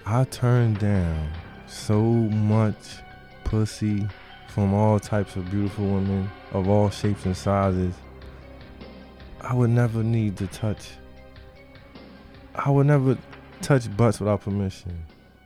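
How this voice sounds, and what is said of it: Lowered, quieter voice. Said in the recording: “I'm gonna lower my voice for this.”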